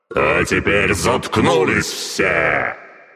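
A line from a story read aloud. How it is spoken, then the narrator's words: Roar. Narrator (Russian): взревел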